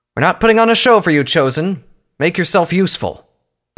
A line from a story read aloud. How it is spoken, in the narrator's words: Pyrovalor shouted at Twilight